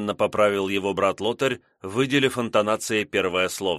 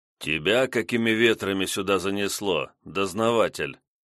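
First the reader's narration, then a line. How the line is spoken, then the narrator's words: Grumbled. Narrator (Russian): буркнул он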